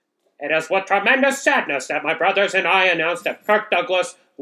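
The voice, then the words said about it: Old-time 1930s radio announcer voice. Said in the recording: “1930s radio voice.”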